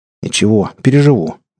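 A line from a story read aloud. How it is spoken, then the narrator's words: Grumbled mutter. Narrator (Russian): буркнул Саня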